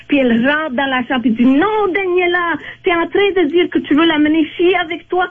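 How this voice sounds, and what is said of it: Speaks French with an accent. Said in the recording (French): “J'adore ton accent. ... C'est tellement beau”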